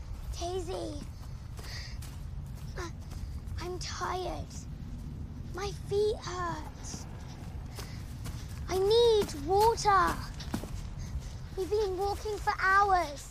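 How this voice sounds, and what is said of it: Whiny complaining voice. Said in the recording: “your stupid, whiny voice”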